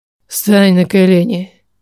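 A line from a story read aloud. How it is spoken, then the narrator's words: Heavy, unusually hoarse voice. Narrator (Russian): Его голос сейчас был утяжелен, непривычный хрипотцой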